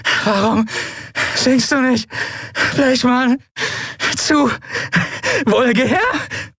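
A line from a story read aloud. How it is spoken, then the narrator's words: Laughing uncontrollably. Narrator (German): schüttelte sie ein Lachen, konnte nicht aufhören zu lachen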